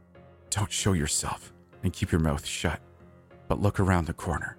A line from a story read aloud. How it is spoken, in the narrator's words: whispered